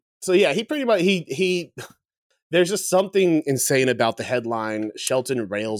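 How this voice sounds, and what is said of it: Usual voice. Nothing is said of it.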